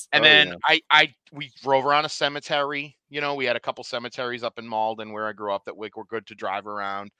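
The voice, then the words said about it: Speaker's own regional accent. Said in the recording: “I know you guys like my accent, so that's why I'll try to throw it in.”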